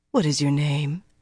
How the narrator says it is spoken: she asked gently

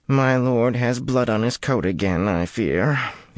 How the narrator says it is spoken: murmured in melancholy tones

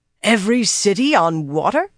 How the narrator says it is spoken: Dobrain exclaimed

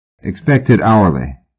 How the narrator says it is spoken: Pope said dryly

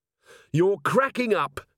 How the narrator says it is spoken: shouted

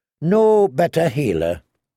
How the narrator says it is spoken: he agreed wearily

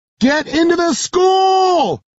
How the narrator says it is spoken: yell

